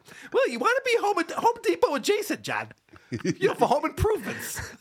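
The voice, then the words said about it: Imitates another person's voice. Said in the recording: “my Mike Tyson impression”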